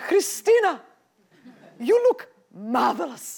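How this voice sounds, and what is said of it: Thick Greek accent. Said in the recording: “my mother, she had a beautiful thick Greek accent.”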